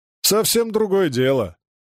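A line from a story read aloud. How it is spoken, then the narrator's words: Cheerful surprise. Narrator (Russian): весело удивился Перышкин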